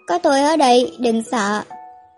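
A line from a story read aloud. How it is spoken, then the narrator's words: Low, gentle male voice. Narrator (Vietnamese): giọng nói trầm thấp của nam nhân nhẹ nhàng vang lên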